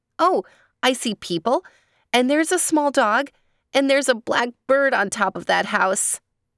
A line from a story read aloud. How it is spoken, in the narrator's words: says Tembi excitedly